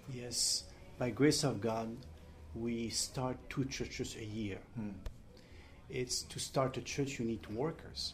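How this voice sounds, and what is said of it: Strong French accent. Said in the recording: “I speak French. I have big French accent”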